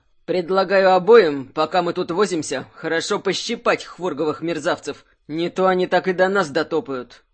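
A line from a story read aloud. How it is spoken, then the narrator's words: Growled. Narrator (Russian): прорычал он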